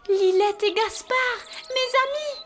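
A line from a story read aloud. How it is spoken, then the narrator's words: Exclaimed. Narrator (French): s'écrie-t-elle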